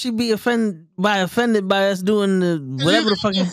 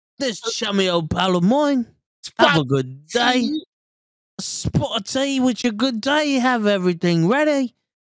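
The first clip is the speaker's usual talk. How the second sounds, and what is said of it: Fake English accent, not convincing. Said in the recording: “You got the fake English accent. That's not even good.”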